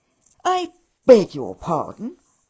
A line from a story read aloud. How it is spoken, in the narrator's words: I interrupted them with a snort